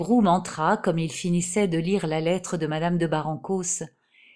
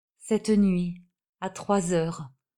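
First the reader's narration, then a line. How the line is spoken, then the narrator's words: Muffled low voice. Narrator (French): dit Madame Jacinthe d'une voix sourde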